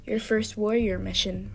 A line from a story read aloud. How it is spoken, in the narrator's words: rasped Yellowfang